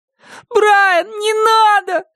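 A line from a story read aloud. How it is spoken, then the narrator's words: Tearful pleading. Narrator (Russian): взмолился Шон со слезами на глазах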